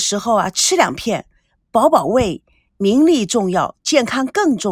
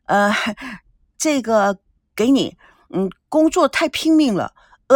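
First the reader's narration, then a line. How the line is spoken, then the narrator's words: Forced casual, restrained. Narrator (Chinese): 王曼尽量克制自己，假装若无其事的说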